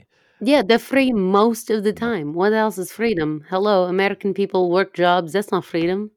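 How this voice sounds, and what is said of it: Shifting put-on mostly Russian accent. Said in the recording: “my shifting accent... a little bit Icelandic, a little bit German, mostly Russian”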